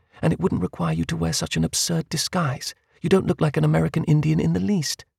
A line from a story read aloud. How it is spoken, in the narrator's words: said calmly